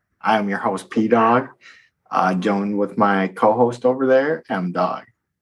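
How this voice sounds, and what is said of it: Soft, smooth R&B DJ voice. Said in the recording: “I will be using my R&B DJ voice because I can't be too loud ... no yelling”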